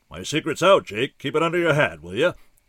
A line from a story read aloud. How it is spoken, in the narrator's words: boomed